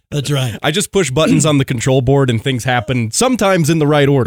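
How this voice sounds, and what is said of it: Polished radio announcer voice. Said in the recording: “has that radio voice”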